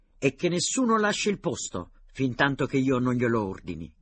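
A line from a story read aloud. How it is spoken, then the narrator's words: Captain shouting. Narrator (Italian): gridò il capitano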